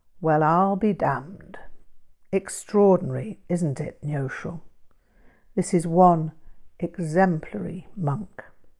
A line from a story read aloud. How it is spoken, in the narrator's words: Pautrel's face assumed a more serious demeanour and he replied in a reverential tone